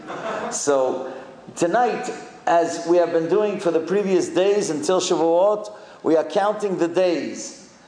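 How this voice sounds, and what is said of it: Sephardic accent. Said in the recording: “excuse my Sephardic accent tonight”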